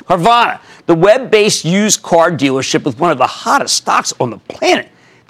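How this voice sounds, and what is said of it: Philadelphia accent. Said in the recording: “excuse my Philadelphia accent.”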